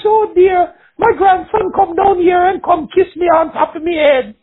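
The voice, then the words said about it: Sweet Jamaican accent. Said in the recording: “she had that sweet Jamaican accent, too”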